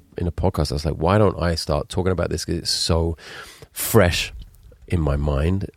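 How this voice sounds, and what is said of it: Deep, congested voice. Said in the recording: “I'm still doing the Barry Light impression here with the deep voice ... oh dear, when does the mucus stop?”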